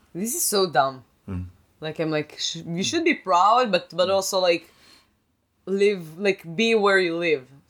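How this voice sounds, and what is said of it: Israeli accent. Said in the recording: “I'm still an Israeli, I have an accent. I can't trick people. Like, nobody would believe me if I'm going to say I'm from Boston.”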